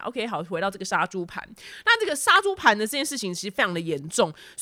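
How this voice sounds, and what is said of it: Taiwanese-accented Mandarin. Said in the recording (Chinese): “我的口音就是台湾人的普通无聊 boring 口音”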